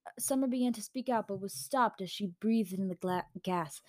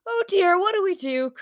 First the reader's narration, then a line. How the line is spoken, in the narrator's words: cried Autumn